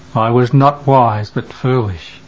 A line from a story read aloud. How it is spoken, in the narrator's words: moaning